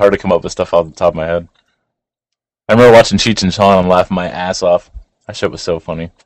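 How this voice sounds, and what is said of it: Usual voice. Nothing is said of it.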